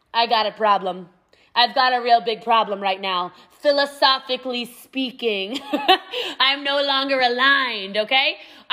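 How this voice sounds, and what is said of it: Imitates another person's voice. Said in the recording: “I don't know what that accent is ... That was a Trump accent?”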